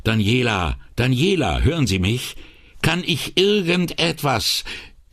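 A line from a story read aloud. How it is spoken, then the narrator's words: Calling out. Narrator (German): rief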